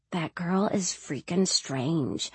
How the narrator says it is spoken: Jody mutter

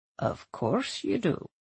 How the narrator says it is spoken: he said in a low, meaningful voice

